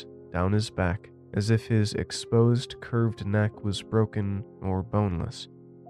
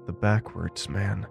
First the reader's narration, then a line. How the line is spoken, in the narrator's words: Ted murmured